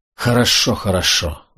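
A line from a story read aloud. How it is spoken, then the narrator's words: Tired. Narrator (Russian): устало сказал Грег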